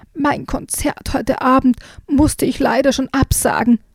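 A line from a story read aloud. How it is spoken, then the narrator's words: Hoarse croaking frog. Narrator (German): quakte der Frosch heiser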